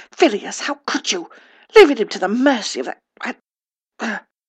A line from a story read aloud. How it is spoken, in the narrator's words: Out in the hall, Minerva was hissing